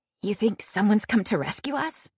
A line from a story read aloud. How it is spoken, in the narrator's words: She whispers